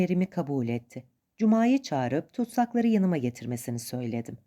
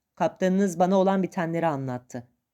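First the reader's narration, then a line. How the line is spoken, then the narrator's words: Deep full voice. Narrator (Turkish): Tok bir sesle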